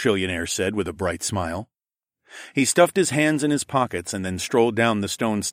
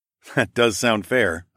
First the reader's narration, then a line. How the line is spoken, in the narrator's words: chuckled